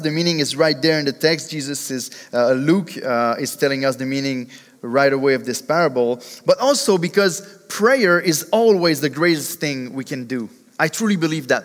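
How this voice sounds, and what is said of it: Speaks with a noticeable accent. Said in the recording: “you will have to endure my accent for 40-something minutes”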